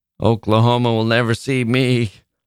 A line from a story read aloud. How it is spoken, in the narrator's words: laughed one of the young men